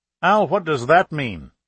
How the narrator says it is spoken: Chavez asked sharply

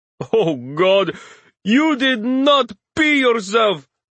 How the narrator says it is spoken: Ali laughs, obviously not affected

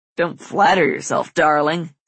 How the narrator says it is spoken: Caleb chuckles

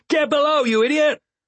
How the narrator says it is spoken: One of the men shouted at Vindelire

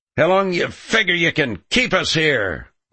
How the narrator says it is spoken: one of them yelled

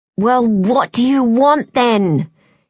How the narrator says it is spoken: she hisses at the baby

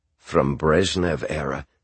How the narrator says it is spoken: said Boris

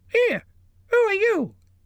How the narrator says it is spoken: it squeaked

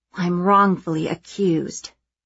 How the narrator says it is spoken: I mutter

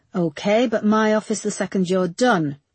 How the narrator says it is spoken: he barked

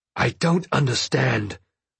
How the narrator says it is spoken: I growled at Rapscal

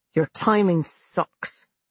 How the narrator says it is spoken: Abby said coldly

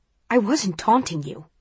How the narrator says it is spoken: he snaps

